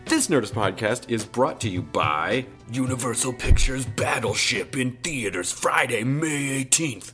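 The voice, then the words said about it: Resonant movie trailer voice. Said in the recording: “That's the best cinema voice that I can do. That this is the trailer voice right now. It's not bad because I feel like I'm getting a little bit of a cold and it really gives it that resonance.”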